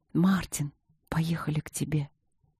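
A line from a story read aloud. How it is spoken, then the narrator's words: Whispering between kisses. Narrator (Russian): шептала между поцелуями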